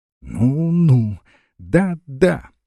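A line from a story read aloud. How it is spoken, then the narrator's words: Measured repetition, hysterical laughter. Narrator (Russian): повторяла с расстановками, разразилась неудержимым истерическим хохотом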